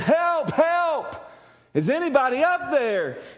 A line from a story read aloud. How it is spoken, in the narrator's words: He yells this for a long time